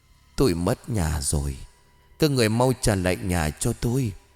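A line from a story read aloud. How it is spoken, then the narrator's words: Cold whisper. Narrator (Vietnamese): Cô ta nở một nụ cười lạnh, cất giọng thì thào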